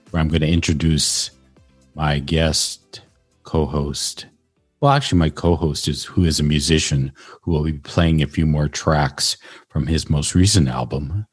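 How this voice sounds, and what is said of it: Late-night FM DJ voice. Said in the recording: “doing my FM DJ voice. This is the kind of voice you hear late at night”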